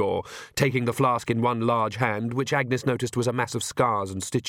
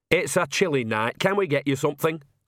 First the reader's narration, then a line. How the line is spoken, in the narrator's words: said Nanny cheerfully